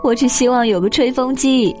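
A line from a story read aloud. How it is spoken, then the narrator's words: Laughing. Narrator (Chinese): 尼基笑道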